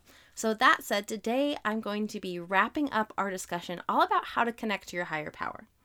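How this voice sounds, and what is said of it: Slightly off, sick-sounding voice. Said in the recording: “my voice sounds a little bit off or if there's an occasional cough or sniffle. I am not feeling very well ... I'm feeling a little sick”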